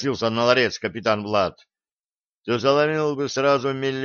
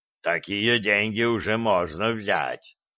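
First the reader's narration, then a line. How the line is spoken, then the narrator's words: Satisfied grunt, dwarf. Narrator (Russian): удовлетворенно хмыкнул гном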